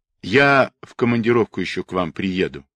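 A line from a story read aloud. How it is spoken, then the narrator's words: Plain. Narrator (Russian): сказал Власов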